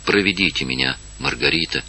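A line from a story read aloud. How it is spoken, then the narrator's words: Quiet. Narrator (Russian): сказала тихо инфанта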